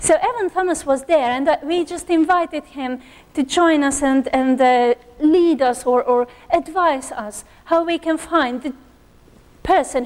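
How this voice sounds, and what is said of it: Strained, fading voice. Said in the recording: “I will need some water, if someone can bring me. ... before I lose my voice.”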